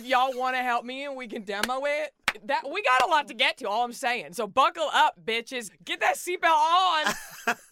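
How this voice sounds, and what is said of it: Strong Texas accent. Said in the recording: “You have the strongest accent of any of us”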